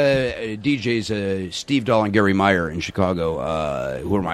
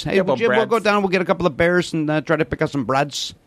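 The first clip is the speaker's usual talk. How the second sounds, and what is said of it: South Side Chicago accent. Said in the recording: “Southside Chicago... They would always make fun of that South Side... Chicago... It's a great accent.”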